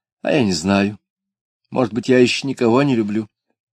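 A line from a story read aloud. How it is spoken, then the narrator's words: Sighing. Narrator (Russian): Люба вздохнув, сказала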